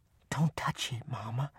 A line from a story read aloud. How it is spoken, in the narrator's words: my oldest sister whispered